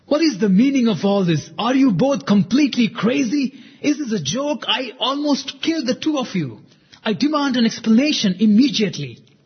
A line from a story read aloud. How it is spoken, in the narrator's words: shouted Yoshiko